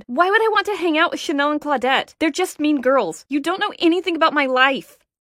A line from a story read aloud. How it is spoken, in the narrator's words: shouted